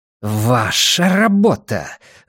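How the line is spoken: Hissing. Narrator (Russian): зашипела Ванита на Финли

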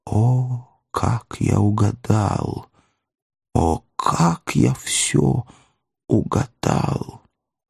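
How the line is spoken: Prayerful whisper. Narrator (Russian): молитвенно сложил руки и прошептал

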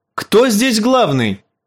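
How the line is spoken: Shouting. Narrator (Russian): крикнул он

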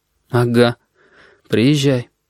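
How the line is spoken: Forced out reluctantly. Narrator (Russian): выдавил Корнелий

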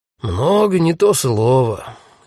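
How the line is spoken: Sigh. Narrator (Russian): вздохнул полицейский

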